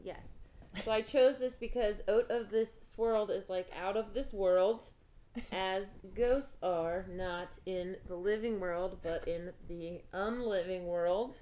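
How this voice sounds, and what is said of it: Norwegian accent. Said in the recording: “Did you say goats, like in Norway, or ghosts? ... It's my accent. ... It's hard to understand people from Norway.”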